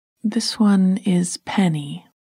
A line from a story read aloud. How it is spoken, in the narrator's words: said